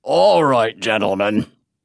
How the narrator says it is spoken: the giant rumbled

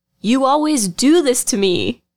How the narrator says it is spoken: he yells something like

